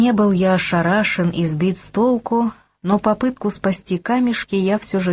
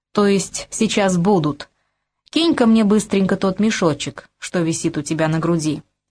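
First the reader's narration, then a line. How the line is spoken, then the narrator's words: Commanding tone. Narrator (Russian): приказным тоном скомандовал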